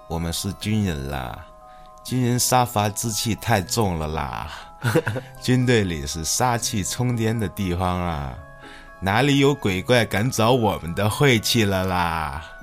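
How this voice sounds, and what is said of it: Character's distinctive regional accent. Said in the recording (Chinese): “用他这个独特的口音”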